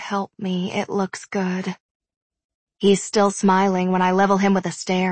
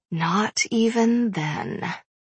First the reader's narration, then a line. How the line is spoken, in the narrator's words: I whisper